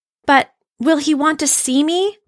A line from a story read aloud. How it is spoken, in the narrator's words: Punchinello cried out